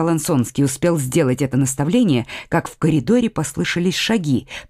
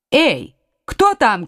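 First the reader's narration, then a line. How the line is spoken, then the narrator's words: Duke's shout. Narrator (Russian): крикнул герцог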